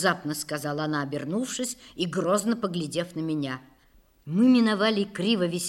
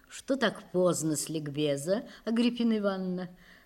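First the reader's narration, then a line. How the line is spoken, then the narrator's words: Melodious, deep chest voice. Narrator (Russian): спросила певучим грудным голосом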